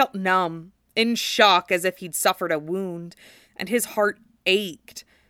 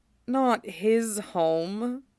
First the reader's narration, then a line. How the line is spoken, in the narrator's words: Cloud corrected him miserably